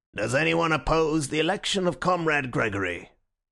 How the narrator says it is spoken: the chairman rose like an automaton and said in a colourless voice

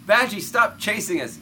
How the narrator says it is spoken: Rutherford yells

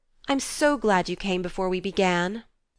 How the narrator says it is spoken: Jo exclaimed impetuously

